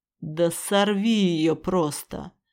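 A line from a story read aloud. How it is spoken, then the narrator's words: Angry male growl. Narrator (Russian): зло рыкнул мужчина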